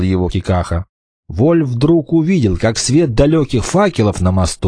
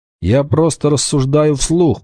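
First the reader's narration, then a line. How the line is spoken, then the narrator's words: Grumble. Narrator (Russian): проворчал Вольф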